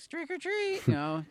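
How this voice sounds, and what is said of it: Squeaky childlike voice. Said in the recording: “a little fat kid with a squeaky voice.”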